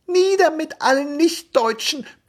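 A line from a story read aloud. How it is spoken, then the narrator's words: Squeaky young voice. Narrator (German): piepste der Jüngste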